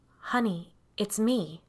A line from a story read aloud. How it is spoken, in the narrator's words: I said in a calm voice, though I felt anything but calm